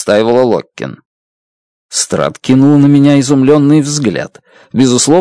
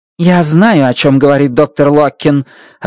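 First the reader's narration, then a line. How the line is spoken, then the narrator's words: Snapped. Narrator (Russian): огрызнулась Страт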